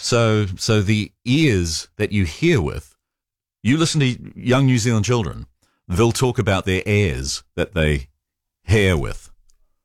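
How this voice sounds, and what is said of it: New Zealand accent. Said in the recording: “we have the quirks of a New Zealand accent ... we're switching vowel sounds”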